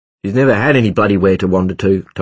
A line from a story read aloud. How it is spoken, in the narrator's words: Tom said sharply